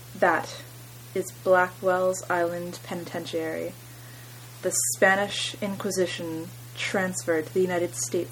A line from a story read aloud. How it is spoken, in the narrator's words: replied